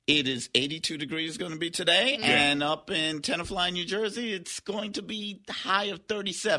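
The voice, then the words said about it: New York accent. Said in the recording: “As you hear in his voice when he gets a little excited or some caffeine in him, the New York.”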